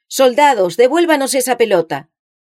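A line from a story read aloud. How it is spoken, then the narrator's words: Authoritative shout. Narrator (Spanish): uno de los prisioneros gritó de manera autoritaria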